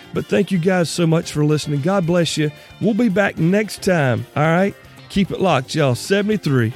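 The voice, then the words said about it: Strained, worn-out voice. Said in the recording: “My voice is about gone”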